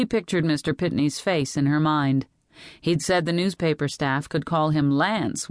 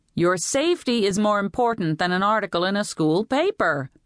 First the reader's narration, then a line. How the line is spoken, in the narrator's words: Betty snapped